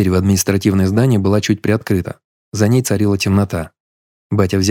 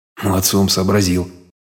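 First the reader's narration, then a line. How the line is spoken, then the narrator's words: Pleased mutter under breath. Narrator (Russian): Себе под нос довольно пробормотал батя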